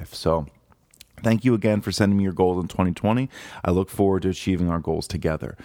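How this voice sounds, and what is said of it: Raspy voice. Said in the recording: “I'm just getting over the flu ... my voice sounds more raspy than normal”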